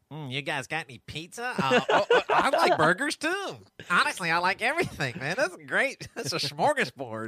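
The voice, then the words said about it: Nasal imitation of another person's voice. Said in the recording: “you do an impression of Joey being nasally”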